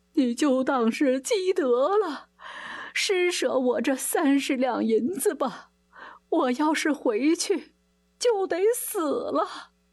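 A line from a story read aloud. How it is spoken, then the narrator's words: Sobbing, tearful plea. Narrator (Chinese): 竹山只好跪在地上哭哭啼啼地说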